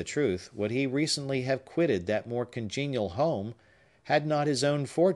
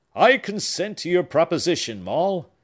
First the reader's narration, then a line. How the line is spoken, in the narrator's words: cried